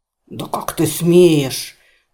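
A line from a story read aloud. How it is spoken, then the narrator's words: Roaring like wounded bull. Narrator (Russian): Раненым быком взревел купец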